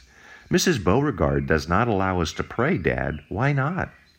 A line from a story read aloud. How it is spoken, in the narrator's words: Katrin exclaimed